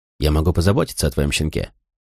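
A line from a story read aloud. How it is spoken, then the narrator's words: Dry. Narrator (Russian): сказал он сухо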